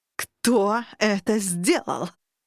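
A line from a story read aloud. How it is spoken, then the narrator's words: Monstrous roar. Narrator (Russian): зарычал жуткий монстр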